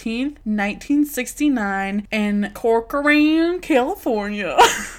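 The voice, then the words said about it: Put-on Southern US accent. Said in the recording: “I can only say it in a southern accent”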